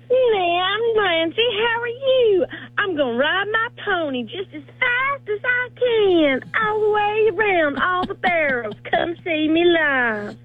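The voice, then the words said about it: Whiny imitation of another person's voice. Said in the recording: “Do your Nancy impersonation ... I sound that whiny, really?”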